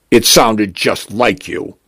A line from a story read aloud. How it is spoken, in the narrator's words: Teresia says